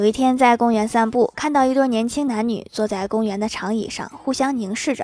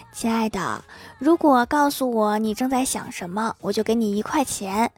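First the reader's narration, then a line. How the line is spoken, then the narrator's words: Whispering girl. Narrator (Chinese): 姑娘对她男友低声说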